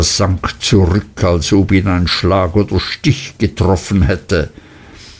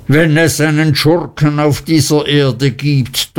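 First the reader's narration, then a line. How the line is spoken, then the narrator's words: Thundering. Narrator (German): donnerte Mr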